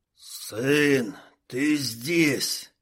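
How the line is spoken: Hoarse rattling voice. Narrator (Russian): прохрипел, продребезжал горец

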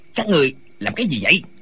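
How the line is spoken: Shout. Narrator (Vietnamese): quát lên

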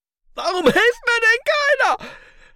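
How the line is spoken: Bellowed. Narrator (German): brüllte Franz Windler

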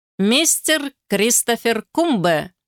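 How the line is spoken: Loud announcement. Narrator (Russian): громко объявила горничная

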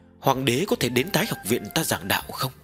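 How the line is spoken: Tentative, probing. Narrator (Vietnamese): Tần Mục khẽ nhúc nhích trong lòng, thử dò xét nói

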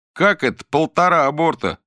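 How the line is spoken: Shout from the audience. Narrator (Russian): крикнули из зала

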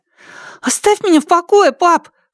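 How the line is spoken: Sudden cry. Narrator (Russian): вскрикнул он

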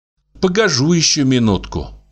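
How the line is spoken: Sighing. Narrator (Russian): вздохнула Агафья

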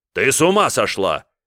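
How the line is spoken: Sudden bark. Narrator (Russian): рявкнул неожиданно Борис

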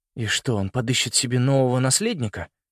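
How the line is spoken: Grumble. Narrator (Russian): буркнул Саймон

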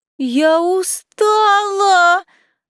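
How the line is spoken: Muffled banshee-like wail. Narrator (Russian): Взвыла натуральной банши, спрятав лицо у него на груди

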